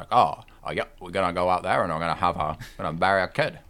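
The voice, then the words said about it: Folksy rural Maine accent. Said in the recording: “He is like the definition of the Stephen King accent ... the main like, accent ... He's that that main Stephen King where he's like”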